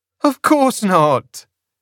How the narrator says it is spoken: she laughed

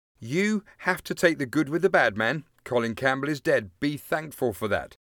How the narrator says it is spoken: Alan told him firmly

